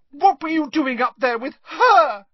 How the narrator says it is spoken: shrieked Lavender Brown

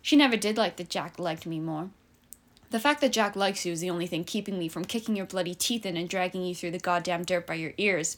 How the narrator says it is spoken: Pippa snapped

